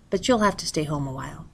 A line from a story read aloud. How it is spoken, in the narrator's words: he said gently